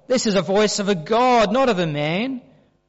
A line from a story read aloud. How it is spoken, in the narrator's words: they shouted